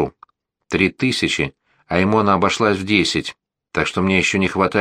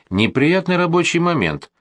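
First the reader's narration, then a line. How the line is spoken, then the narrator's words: Cheerful and carefree. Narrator (Russian): сказал бодро и беззаботно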